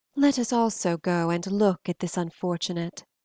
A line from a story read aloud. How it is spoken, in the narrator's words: she whispered, like a satanic echo